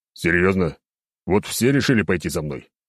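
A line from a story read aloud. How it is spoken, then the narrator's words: Growled. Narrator (Russian): прорычал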